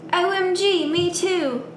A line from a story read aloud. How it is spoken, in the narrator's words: I replied happily